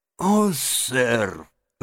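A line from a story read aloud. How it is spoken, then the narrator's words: Choked out through tears. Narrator (Russian): выдавил мистер Джаб, заливая слезами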